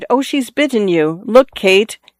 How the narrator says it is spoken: She cried

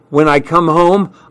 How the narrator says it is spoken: I answered shakily

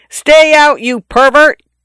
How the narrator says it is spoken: yelled in a voice not mine

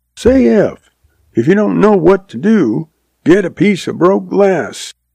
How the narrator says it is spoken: she hollered back

